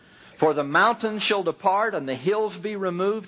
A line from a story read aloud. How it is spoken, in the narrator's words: He said